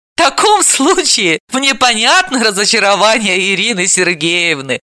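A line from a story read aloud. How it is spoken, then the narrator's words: Laughing. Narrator (Russian): рассмеялась Далила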